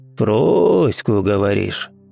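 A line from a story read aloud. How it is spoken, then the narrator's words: Muffled, old man. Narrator (Russian): глухо сказал старик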